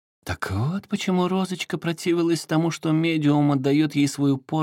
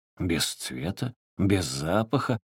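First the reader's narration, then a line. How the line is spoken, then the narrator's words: Muttered. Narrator (Russian): пробормотал он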